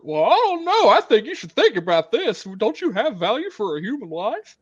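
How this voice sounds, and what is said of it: Imitates another person's voice. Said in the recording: “my Don Knotts impersonation”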